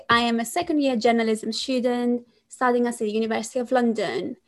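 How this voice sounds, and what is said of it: Greek accent speaking English. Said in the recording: “Some of you might wonder where the accent comes from. I am Greek.”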